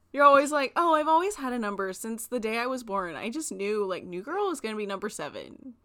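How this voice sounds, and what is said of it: Valley Girl voice. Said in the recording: “That is not my Carrie impression. That's more of a Valley Girl impression, honestly.”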